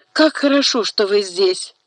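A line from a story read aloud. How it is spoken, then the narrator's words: Exclaiming. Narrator (Russian): воскликнула Лу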